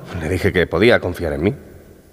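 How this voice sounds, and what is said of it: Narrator voice. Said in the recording (Spanish): “poner voz de narrador ... me parece que va bien en la buena dirección ... esa es una voz perfecta de narrador”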